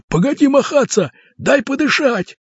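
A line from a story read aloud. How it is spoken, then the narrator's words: Shouted. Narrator (Russian): закричали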